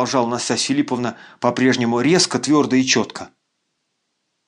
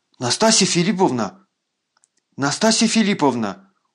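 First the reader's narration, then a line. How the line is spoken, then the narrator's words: Persuasive, alarmed voice. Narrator (Russian): убеждающим, но встревоженным голосом произнес генерал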